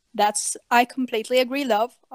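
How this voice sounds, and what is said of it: Put-on British accent. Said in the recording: “What's with your British accent?”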